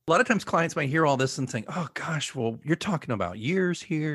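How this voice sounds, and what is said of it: Usual voice. Nothing is said of it.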